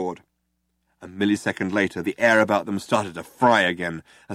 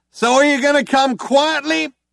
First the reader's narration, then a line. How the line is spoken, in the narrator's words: shouted one of the cops again